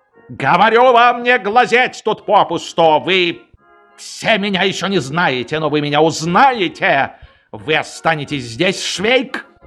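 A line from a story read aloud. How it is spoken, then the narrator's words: Menacing order. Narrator (Russian): Приказал он грозно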